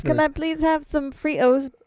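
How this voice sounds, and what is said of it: Put-on British accent. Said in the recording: “My British accent. ... I'm in no way an actress.”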